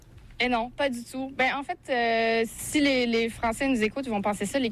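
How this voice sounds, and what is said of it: Evident Québécois French accent. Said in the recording (French): “tu as un accent québécois évident ... Les Québécois, ils entendent encore des petites inflexions françaises dans ma façon de parler”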